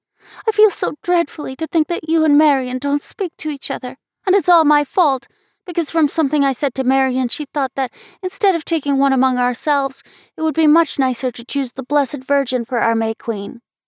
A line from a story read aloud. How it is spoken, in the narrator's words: sobbed Abby